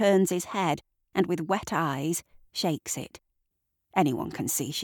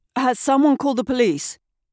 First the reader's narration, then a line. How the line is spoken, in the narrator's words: Tanya booms out in practiced resonance